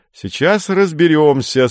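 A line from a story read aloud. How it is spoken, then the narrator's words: Cheerful. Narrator (Russian): сказал Женя бодро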